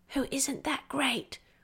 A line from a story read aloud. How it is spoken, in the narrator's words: she added in a naughty whisper